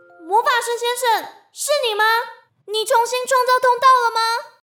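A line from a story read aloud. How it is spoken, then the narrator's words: Loud shout into darkness. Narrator (Chinese): 他往黑漆漆的门里大喊一声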